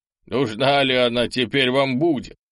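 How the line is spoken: Chuckling. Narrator (Russian): хохотнул начальник обоза

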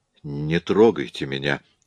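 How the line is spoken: Strained, forced words. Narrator (Russian): выдавил он наконец

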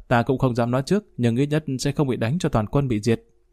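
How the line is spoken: Hearty laughter. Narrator (Vietnamese): cười ha ha

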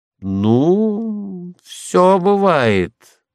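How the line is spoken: Drawled. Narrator (Russian): протянул отец

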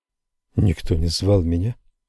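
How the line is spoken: Trembling voice. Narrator (Russian): ответил я дрожащим голосом

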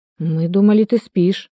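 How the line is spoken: Mumbling. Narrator (Russian): промямлил

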